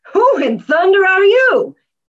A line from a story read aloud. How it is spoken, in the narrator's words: cried